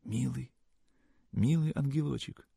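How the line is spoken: Bewildered, anxious, rapturous whisper. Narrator (Russian): Полный недоумения, тревоги, непонятного восторга, Сашка шептал

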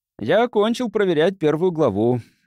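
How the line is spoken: Cheerful. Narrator (Russian): весело произнес он

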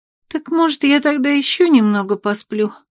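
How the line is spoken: Hopeless sigh. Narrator (Russian): Безнадежно вздохнула Веся, точно зная, что спорит напрасно

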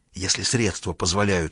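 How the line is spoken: Whispered reply. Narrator (Russian): шепотом ответила Мэри

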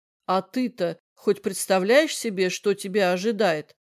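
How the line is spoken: Plain question. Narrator (Russian): спросил ее Эндрю

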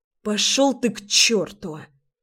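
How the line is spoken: Angry spitting. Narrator (Russian): Зло выплевывает она

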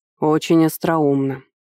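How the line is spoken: Grumbling. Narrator (Russian): заворчал я

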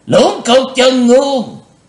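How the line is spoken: Terrifying shout. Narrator (Vietnamese): bang chủ quát lên một tiếng khiếp hãi

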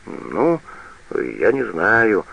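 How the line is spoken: Confused mumble. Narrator (Russian): растерянно бормочет лесничий

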